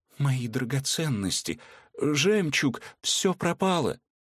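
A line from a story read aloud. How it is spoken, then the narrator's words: Faltering, strained babble. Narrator (Russian): только сделав над собой усилие, девушка пролепетала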